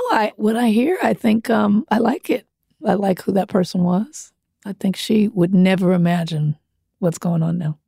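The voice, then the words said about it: Low, smoky-sounding voice. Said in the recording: “My voice is very, very much changed. It was very high. ... People always ask me, are you a smoker?”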